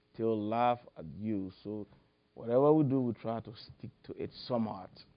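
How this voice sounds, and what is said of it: Liberian accent with slight American mix. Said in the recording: “maintain a Liberian accent ... mix my whatever American little bit accent with the African accent”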